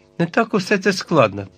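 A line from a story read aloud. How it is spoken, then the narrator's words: Exclaiming. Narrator (Ukrainian): вигукнув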